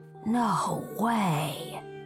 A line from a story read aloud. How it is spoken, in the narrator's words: Rowan breathed